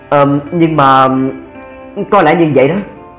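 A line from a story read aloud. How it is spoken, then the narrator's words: Hesitant. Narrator (Vietnamese): Duy Minh ngập ngừng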